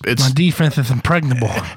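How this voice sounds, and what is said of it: Throaty lisping Mike Tyson impression. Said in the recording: “My Mike Tyson needs some work, I guess. ... It's not too bad. It's not too much lisp. ... It's more on the voice, the like throaty stuff of it. Yeah, that's the good impression. ... It's almost like it's a Thuffer and Thuckatash at the same time.”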